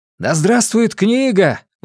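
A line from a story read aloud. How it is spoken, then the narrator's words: Group exclaiming. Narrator (Russian): воскликнули остальные Мэнни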